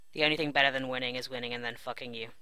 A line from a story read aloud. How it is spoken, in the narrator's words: John says after